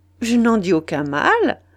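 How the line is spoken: Cheerful reply. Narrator (French): répondit Dutheil gaiement

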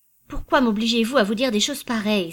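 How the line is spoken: Trembling exclamation. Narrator (French): s'écria-t-elle d'une voix tremblante

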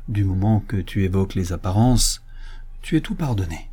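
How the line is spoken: Muttered through teeth. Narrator (French): murmura Madame Brice entre ses dents

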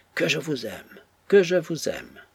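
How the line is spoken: Brother exclaiming. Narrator (French): s'écria son frère

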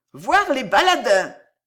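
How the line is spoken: Group exclaiming, clapping. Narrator (French): s'écrièrent les ribaudes en frappant des mains

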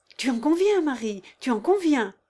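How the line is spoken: Exclaimed. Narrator (French): s'écria Chatov

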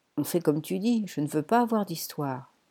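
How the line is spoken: Sighed. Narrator (French): soupira Poppy

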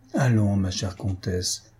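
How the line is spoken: Affectionate reply. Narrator (French): répliqua Madame von Eylau d'un ton affectueux

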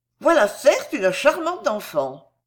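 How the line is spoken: Exclaimed sincerely. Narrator (French): Fausta s'écria, en toute sincérité

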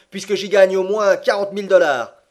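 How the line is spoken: Exclaimed. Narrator (French): s'écria Andrew Speedy

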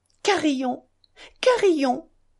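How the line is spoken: Calling dog, snapping fingers. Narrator (French): cria Ilyusha en faisant claquer ses doigts frêles pour attirer le chien

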